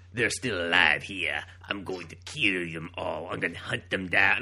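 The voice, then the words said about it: Put-on accented villain character voice. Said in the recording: “that's how he sounds in my head when I read his shitty dialogue ... this little voice to accompany you ... that kind of accent ... his stupid voice”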